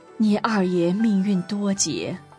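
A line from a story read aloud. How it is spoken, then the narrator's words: Father, sighing. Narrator (Chinese): 爸爸叹口气说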